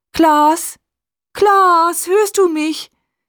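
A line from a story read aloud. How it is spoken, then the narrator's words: Calling out repeatedly. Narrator (German): Sie ruft seinen Namen immer wieder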